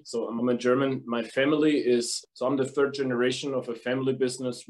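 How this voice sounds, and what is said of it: German accent. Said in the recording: “as you can probably hear from my accent, from Germany”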